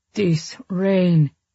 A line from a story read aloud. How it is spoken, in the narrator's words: she sighed